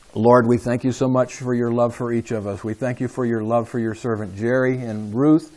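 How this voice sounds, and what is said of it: Somewhat hoarse voice. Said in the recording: “my somewhat hoarse voice”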